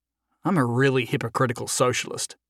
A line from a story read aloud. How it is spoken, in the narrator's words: he muttered to himself